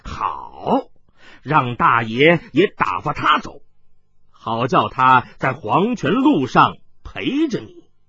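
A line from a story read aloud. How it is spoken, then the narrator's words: Sinister laugh. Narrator (Chinese): 狞笑道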